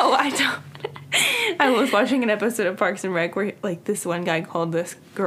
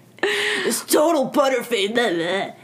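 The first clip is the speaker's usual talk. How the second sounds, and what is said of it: Imitates a man's voice. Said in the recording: “That was my man impression.”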